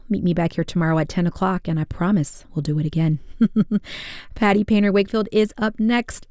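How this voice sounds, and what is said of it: Hoarse voice. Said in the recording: “Excuse my hoarse voice. The allergies have gotten the best of me”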